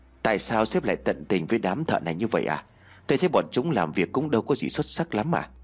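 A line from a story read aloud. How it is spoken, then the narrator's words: Soft question. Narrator (Vietnamese): Tay quản lý khẽ hỏi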